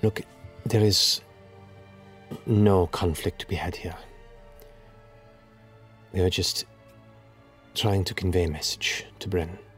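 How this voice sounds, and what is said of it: Female voice, Zemnian accent. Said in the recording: “speaking in a Dwendalian Zemnian accent. A female voice. Female.”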